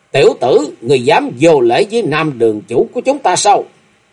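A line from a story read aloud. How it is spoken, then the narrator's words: Angry young women. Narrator (Vietnamese): Hai thiếu nữ lúc đầu giận dữ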